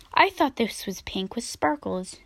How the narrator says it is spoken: she said sadly

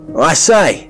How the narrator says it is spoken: Stanley called out

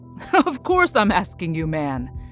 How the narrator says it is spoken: chuckled

